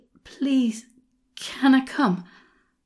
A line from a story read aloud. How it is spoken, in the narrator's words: I panted at him